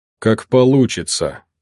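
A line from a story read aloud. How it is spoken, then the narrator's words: Calm, slightly thoughtful. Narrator (Russian): спокойно и немного задумчиво ответила фигура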